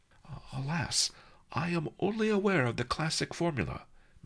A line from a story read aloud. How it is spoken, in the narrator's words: Master Li sighed